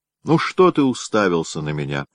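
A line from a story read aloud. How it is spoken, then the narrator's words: Plain. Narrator (Russian): говорит она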